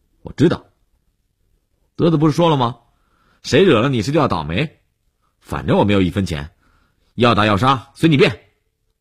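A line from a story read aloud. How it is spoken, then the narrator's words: Defiant raised voice. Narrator (Chinese): 悠悠无欲则刚地瞪着眼睛，放大声音打断了李文海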